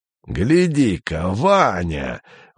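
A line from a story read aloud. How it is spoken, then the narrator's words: Exclaiming. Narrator (Russian): воскликнул дядя Юра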